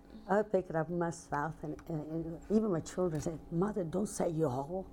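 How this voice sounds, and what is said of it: Italian accent with Southern American tinge. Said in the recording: “that's where I picked up my Southern. ... they tell me I'm Italian with a Southern accent.”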